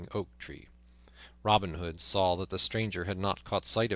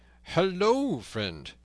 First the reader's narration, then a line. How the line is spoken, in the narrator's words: cried Robin